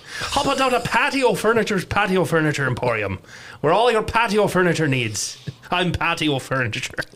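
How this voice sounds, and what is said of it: Put-on Irish accent, salesman voice. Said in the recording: “I used to do an impression of a furniture salesman ... I think if I do an Irish accent long enough, it just devolves to pirate”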